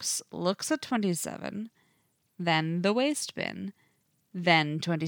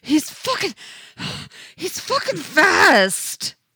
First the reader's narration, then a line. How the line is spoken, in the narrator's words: he gasps